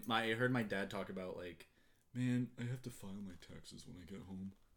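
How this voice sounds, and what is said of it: Imitates another person's voice. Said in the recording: “That's the impersonation of my dad, even though he doesn't sound like that.”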